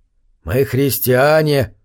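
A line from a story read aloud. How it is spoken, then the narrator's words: Hoarse, curt, domineering. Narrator (Russian): хрипло оборвал Джон Медокс, свойственным ему неприятным и нетерпящим возражений тоном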